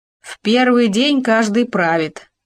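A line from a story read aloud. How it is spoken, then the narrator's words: Plain. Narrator (Russian): ответил еж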